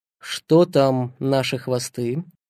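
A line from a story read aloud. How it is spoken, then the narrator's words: Plain. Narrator (Russian): спросил он Астахова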